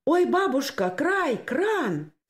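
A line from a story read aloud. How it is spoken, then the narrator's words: Sudden cry. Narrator (Russian): скрикнула вдруг Анюта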